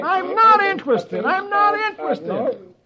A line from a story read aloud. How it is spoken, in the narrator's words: Herb is yelling